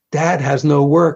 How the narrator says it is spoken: I said

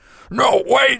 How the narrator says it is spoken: shrieked the large man

